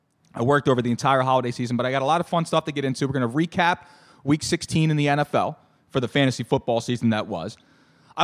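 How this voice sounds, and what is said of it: Slightly strained, worn-out voice. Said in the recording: “My voice is a little shot.”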